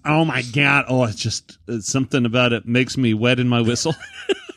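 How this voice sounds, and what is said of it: Put-on Boston accent. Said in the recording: “they've got that sexy accent where when they talk like this”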